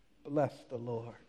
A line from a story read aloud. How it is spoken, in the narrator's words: David cries out